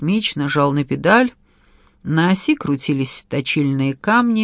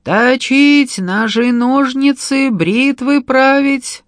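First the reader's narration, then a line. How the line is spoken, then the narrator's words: Sing-song street cry. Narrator (Russian): Точильщик кричал нараспев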